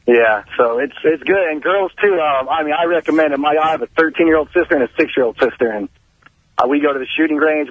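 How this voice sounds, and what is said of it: Southern-sounding rural Californian accent. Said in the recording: “that accent ... It's like a southern accent.”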